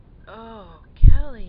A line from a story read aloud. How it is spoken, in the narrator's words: I moaned